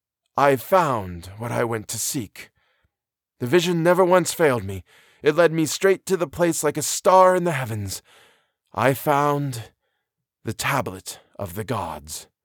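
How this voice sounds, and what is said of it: Solemn, mystical voice. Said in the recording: “replied the other in a solemn voice, and it was the voice of the mystic rather than the man of science”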